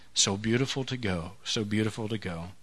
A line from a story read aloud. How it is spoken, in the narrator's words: again and again she was heard through her last hours murmuring